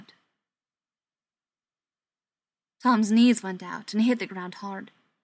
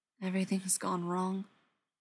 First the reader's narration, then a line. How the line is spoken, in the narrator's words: Mike said softly